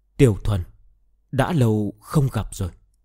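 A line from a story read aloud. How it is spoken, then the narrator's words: Whisper. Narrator (Vietnamese): nữ tử kia lại xuất hiện, đứng im ở đó, mặt đeo khăn che, thì thào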